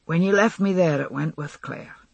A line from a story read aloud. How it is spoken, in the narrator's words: he said quietly